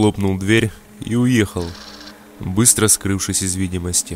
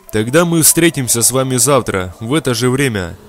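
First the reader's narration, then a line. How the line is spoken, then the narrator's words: Young man calling out. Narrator (Russian): Парень ничуть не удивился и крикнул мне вслед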